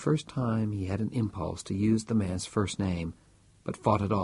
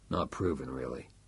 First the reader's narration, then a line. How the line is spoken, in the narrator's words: grunted Strauss